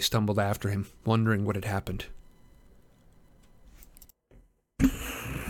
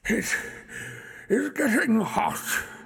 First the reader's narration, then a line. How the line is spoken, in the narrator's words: he gasped